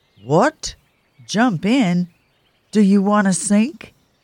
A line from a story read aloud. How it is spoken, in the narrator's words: Bob cried